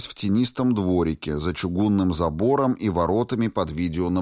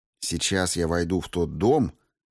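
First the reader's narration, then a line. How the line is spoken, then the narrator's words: Quiet speech. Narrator (Russian): тихо произнес я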